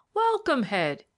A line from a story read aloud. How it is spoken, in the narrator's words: he exclaimed, with his usual heartiness of manner